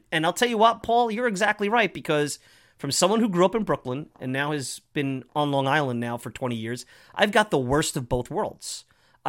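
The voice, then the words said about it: Brooklyn and Long Island accent. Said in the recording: “I have a Brooklyn accent that's transformed into a Long Island accent that's always at conflict with each other”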